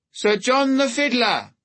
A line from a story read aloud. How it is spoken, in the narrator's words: the herald cried